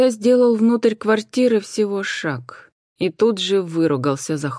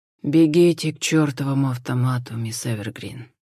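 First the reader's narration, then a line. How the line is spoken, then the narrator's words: Dead flat command. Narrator (Russian): мертвым голосом велел Хосе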